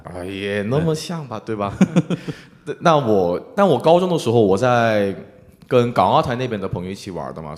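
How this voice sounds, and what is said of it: Mandarin with slight Taiwanese accent. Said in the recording (Chinese): “我现在口音可能有点台湾的那种。... 对对，你有点台湾腔。”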